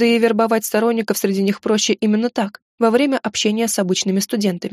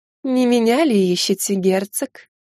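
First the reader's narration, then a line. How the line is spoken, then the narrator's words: Drawling voice. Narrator (Russian): тягучим голосом произнесла Алоиза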